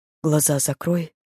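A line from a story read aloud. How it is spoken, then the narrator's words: Quiet. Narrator (Russian): произнес он тихо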